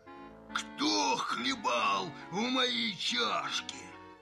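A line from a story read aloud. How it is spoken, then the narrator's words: Soft growl. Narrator (Russian): Настасья Петровна зарычала не так громко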